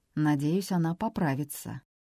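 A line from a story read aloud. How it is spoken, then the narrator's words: Suspicious mutter. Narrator (Russian): буркнул Питер, с подозрением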